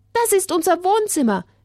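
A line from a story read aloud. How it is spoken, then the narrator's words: Called out. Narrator (German): rief Paul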